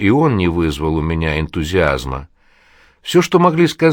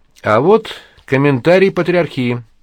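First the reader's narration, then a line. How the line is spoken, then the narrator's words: Joyful proclamation. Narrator (Russian): радостно провозгласил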